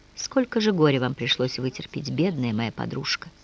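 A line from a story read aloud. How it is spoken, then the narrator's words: Whisper. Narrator (Russian): Наконец Дельфина прошептала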